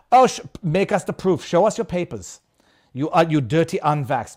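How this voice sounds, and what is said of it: Put-on accent imitating another person. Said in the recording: “Klaus Schwab. I'll do that, Klaus Schwab ... I'm going with the accent.”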